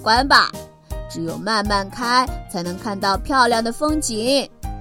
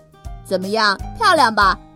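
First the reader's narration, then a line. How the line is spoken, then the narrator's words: Happy exclamation. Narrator (Chinese): 小红高兴地叫起来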